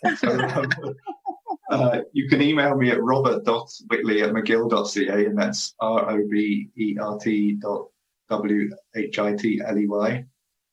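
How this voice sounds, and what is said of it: British accent. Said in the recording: “my British accent”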